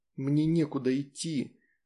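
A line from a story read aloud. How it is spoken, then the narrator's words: Moaning. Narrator (Russian): простонала Джессика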